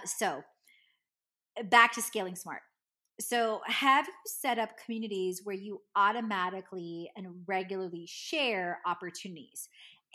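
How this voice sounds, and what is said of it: Strained voice. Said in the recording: “my voice is strained”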